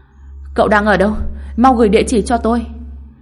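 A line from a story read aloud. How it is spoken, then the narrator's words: Quick shout. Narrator (Vietnamese): Hàn Tuyết nhanh chóng hét lên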